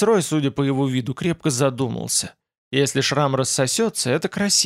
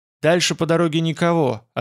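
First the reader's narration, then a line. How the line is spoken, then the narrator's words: Plain. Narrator (Russian): ответил он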